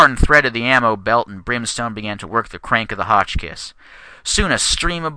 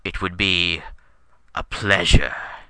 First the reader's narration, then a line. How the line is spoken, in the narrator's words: he whispered slowly